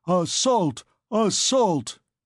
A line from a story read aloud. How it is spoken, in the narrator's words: There came a tremendous howl, in which there mingled all tongues, all dialects, all accents